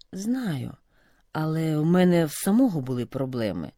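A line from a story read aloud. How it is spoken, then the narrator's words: Sighing. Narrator (Ukrainian): зітхнув Роман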